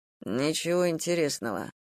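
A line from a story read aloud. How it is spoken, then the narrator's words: Muttered. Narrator (Russian): наконец пробормотал он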